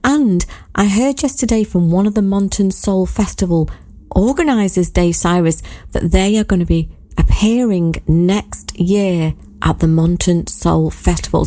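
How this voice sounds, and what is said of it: Husky, nearly lost voice. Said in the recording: “my voice is a little bit husky, because I was singing so much ... my voice is now more or less gone”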